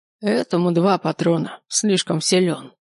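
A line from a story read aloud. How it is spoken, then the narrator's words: Old man grumbling. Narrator (Russian): проворчал старичок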